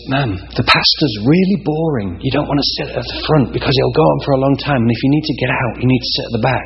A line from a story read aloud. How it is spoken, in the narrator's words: in an English accent, of course, and the usher says